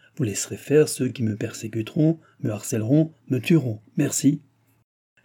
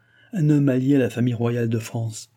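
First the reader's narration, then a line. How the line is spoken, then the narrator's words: Laughing. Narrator (French): dit madame du Barry en riant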